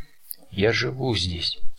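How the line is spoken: Calm reply. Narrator (Russian): спокойно ответил он

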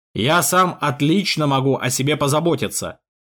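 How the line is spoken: Barked. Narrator (Russian): рявкнул граф

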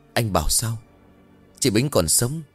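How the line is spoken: Trembling. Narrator (Vietnamese): Thầy Ban nghe xong run rẩy bảo

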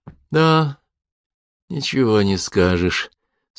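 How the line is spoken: Sympathetic sigh. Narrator (Russian): сочувственно вздохнул Петр и заметил

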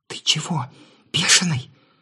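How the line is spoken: Muffled whisper. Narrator (Russian): раздался приглушенный шепот

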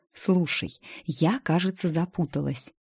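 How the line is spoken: Whispered again. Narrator (Russian): снова шепнула я

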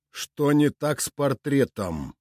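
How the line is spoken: Lord's growl. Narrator (Russian): рыкнул повелитель домена Сокольники

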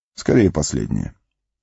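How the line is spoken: Calm reply. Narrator (Russian): спокойно ответил Гэндальф

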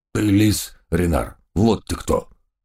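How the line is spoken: Sudden growl. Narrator (Russian): неожиданно прорычал доберман Гавкинс

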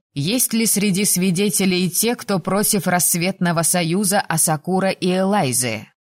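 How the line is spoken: Loud ragged-breath question. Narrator (Russian): на рваном выдохе громко спросила

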